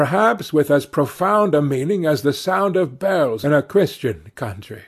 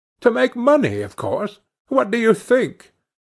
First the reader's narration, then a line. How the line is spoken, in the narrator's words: he said scornfully